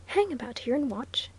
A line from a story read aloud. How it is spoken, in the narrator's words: whispered the clerk